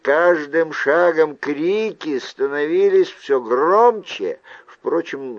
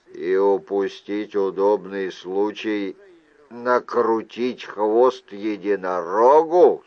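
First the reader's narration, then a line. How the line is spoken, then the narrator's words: Plain. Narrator (Russian): сказал он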